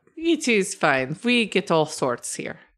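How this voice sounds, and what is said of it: Vampire-like character voice. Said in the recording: “why do you talk like a vampire?”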